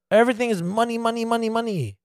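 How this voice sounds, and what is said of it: Poor imitation Chinese accent. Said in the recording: “you have to do a really semi-shitty Chinese accent?”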